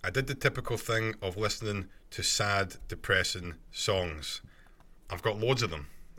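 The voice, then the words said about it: Scottish accent. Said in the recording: “must be my Scottish accent”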